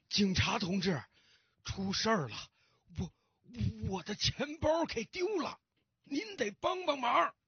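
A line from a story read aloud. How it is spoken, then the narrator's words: Old man, hurried, panting. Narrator (Chinese): 老先生急急忙忙的喘着粗气对警察说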